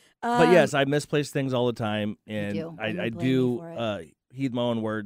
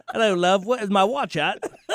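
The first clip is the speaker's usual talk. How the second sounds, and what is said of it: Put-on British accent. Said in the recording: “Can I say it with a little British accent?”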